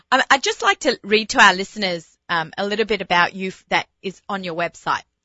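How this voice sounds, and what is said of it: Speaks with a non-native accent. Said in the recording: “It's my accent. I blame everything on my accent.”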